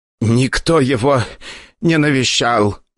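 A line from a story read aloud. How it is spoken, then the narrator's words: Hoarse wheezing. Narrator (Russian): хозяин клиники уже хрипел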